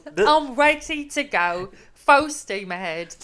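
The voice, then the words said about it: Put-on English accent. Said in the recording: “You got an accent. An English accent.”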